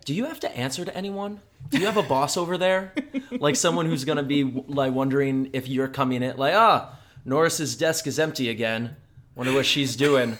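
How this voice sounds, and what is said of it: American accent. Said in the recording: “We have the American accent, the one that no one wants to hear.”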